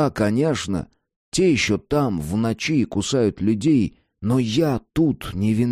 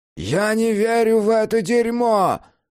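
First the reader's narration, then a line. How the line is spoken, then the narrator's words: Yelling. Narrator (Russian): заорал он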